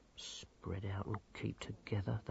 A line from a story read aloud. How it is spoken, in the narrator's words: they muttered